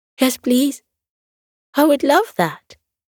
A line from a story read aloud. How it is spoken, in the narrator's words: he cried